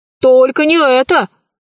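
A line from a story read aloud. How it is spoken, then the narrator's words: Bear cub shouting. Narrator (Russian): закричал по-русски золотой медвежонок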